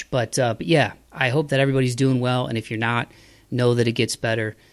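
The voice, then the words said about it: Hoarse voice. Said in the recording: “My voice is getting hoarse because I'm talking too much”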